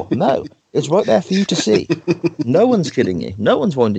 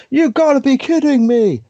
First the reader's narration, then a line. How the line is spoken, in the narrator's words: Michael Cole shouting